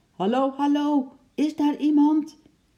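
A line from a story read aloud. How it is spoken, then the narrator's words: Loud call. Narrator (Dutch): riep hij hard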